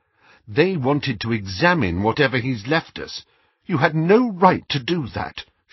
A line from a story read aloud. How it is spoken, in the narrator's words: she said, and her voice trembled slightly